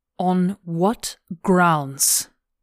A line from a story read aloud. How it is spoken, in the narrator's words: She said the words slowly, one by one